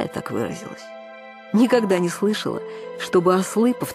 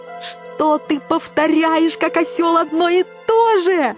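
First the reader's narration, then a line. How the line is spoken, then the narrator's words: Yelling. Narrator (Russian): заорала я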